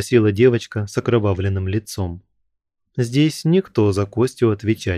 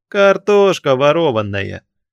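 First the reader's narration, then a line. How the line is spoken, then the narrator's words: Cheerful exclamation. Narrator (Russian): весело воскликнул другой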